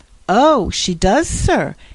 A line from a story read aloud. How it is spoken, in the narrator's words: exclaimed Jasper